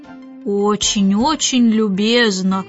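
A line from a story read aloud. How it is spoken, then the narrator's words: Glum thanks. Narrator (Russian): уныло поблагодарил мистер Навыворот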